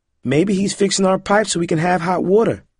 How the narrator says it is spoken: Amberlynn said

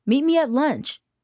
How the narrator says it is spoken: she called out

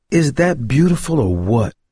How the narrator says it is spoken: Corey exclaimed

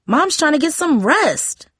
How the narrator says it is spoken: Darcy yelled

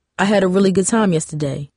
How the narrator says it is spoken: he said

